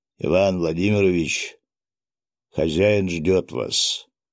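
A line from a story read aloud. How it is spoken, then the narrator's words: Rough voice. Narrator (Russian): грубым голосом произнес он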